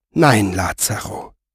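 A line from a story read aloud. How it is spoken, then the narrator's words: Soft-spoken. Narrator (German): sagte sie leise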